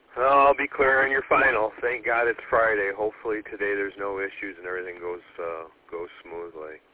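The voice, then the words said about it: Hoarse, failing voice. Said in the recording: “I'm losing my voice again, the stupid cough that I'm getting.”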